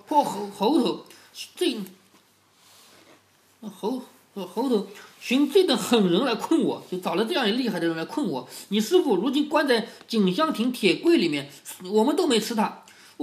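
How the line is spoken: Hateful, through gritted teeth. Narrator (Chinese): 恨死了悟空，咬牙说

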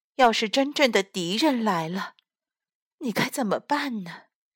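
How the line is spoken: Mother sighing. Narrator (Chinese): 负鼠妈妈叹了口气说

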